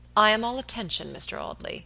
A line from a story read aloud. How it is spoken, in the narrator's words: he said coldly